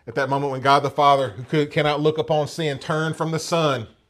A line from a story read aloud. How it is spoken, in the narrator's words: Jesus cried out in his humanity